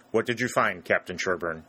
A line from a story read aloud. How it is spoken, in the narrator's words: asked